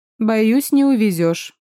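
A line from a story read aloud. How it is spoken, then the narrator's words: Snorting. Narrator (Russian): хмыкнула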